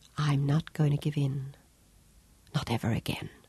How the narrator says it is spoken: whispered

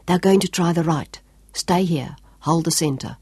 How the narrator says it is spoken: Sean called softly

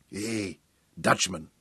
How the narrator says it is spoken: Ubberly murmured

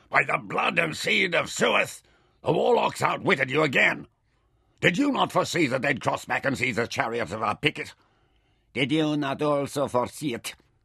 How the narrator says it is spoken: Ishtar snarled at him

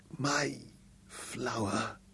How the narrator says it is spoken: there was a faint echo of satisfaction in his voice as he whispered

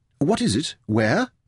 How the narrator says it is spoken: asked eagerly

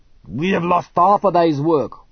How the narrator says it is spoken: he snarled

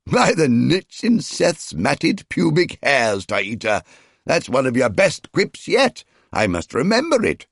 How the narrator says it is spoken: Kratos bellowed with laughter

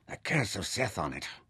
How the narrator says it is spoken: Nefer muttered

